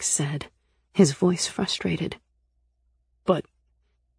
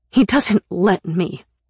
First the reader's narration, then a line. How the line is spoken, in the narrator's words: said angrily